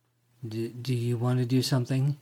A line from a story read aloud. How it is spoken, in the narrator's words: He asked, still stuttering a little